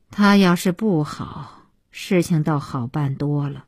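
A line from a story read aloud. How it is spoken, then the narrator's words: Long sigh. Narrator (Chinese): 小西妈长叹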